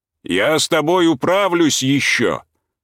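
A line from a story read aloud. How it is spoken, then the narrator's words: Farewell shout. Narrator (Russian): крикнул на прощание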